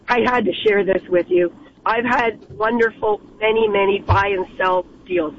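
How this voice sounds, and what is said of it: Hoarse voice. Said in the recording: “excuse my laryngitis”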